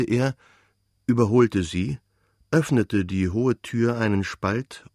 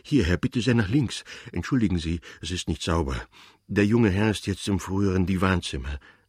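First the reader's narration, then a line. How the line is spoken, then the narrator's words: Breathless panting. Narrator (German): sagte der Portier keuchend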